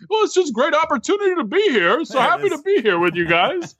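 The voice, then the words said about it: Imitates another person's voice. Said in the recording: “my Gary impersonation ... It was fantastic. Spot on.”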